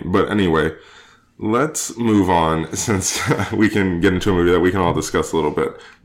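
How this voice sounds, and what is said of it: Weak, fading sick voice. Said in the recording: “I'm a little sick. If you cannot tell, my voice is kind of fading from me.”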